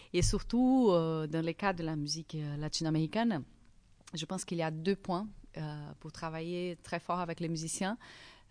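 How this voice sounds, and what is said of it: Accented French speech. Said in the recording (French): “quand je parle français, j'ai mon accent.”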